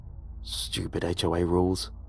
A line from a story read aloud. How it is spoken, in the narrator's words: I muttered to myself